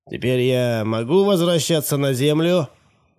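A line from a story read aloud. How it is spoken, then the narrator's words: Rude question. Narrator (Russian): грубо спросил Бэдфорд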